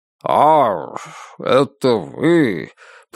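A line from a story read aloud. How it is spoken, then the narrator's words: Drawled. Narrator (Russian): протянул он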